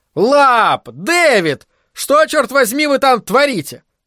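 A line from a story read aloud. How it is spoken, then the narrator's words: Yelling. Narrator (Russian): орал он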